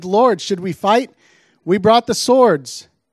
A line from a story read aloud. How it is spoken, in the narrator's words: they exclaimed